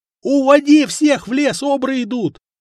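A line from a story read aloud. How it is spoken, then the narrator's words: Yelling youth. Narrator (Russian): заорал паренек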